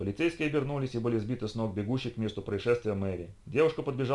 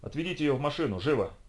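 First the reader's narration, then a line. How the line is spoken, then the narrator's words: Sharp shout. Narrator (Russian): прикрикнул на полицейских Ник Штивельсон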